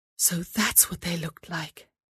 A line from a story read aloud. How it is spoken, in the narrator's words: she whispered to herself